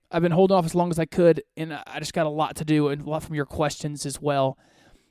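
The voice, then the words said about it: Voice sounds rough and strained. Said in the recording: “my voice is terrible”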